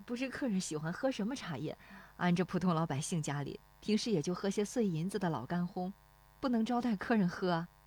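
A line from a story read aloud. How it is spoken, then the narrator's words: Shy, low, smiling. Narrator (Chinese): 那妇女笑得有些羞涩，低声说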